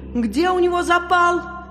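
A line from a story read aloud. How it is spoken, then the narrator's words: Shouted. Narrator (Russian): И один из них крикнул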